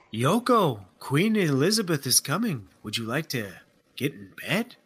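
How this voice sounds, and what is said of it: Put-on accent. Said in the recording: “don't put that accent away quite yet”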